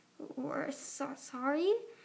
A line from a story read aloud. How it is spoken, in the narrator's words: Sunny stammered